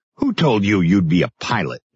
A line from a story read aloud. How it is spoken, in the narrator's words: Johansson snapped